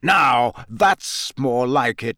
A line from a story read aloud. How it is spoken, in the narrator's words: growled Moody's voice